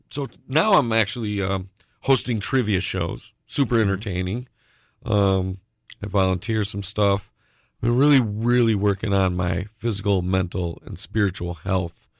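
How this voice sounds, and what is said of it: Voice giving out. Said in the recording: “my voice is going on me”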